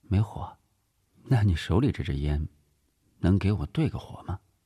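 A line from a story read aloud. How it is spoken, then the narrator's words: Cool, perfunctory. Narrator (Chinese): 黎晴淡淡的敷衍道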